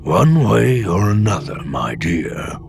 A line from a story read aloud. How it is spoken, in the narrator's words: the old Bothan had rumbled